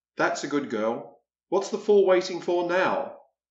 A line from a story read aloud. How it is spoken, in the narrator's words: says Captain Purnell